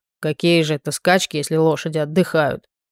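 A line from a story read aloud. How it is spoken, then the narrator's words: Displeased grumbling mutter. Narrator (Russian): пробурчал недовольный горланкер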